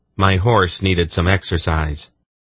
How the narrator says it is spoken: Garion said flatly

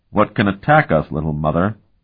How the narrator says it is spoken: asked gravely

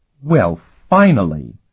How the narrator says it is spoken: the captain snapped

